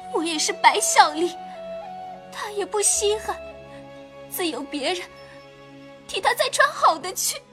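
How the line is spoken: Crying. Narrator (Chinese): 林黛玉哭道

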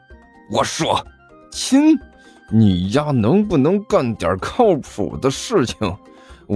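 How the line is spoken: Through gritted teeth. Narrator (Chinese): 甘球咬牙切齿的说道

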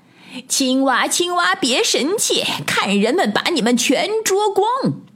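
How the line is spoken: Mocking laughter. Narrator (Chinese): 害虫哈哈笑

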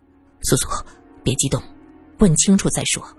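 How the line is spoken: Low voice. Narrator (Chinese): 罗隐低声说道

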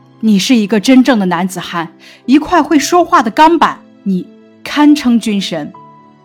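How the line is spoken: Stunned loud exclamation. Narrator (Chinese): 沃克医生惊呆了，大声嚷道

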